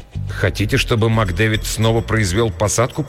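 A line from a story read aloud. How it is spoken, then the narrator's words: Muttered. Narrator (Russian): пробормотал я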